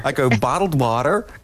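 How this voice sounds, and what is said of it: Imitates American pronunciation. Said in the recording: “That's a good imitation.”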